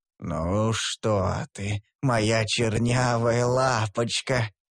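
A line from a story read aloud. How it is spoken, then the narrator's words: Drawn-out, syrupy voice. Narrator (Russian): протянул он елейным голосом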